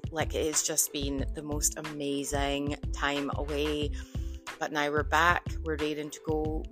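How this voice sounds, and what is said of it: Scottish accent. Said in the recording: “I might have a slightly thicker accent ... back from the motherland, aka Scotland”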